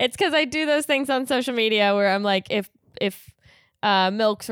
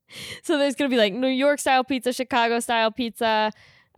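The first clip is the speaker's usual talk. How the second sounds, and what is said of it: Slips into a New York accent. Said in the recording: “I don't know why I kind of got a New York accent”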